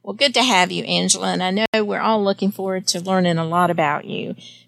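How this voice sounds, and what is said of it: Southern American accent. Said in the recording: “my southern accent.”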